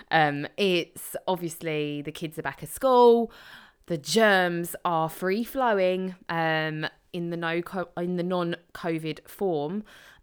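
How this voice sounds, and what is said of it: Hoarse voice. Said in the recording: “I sound very hoarse ... common cold, sore throat”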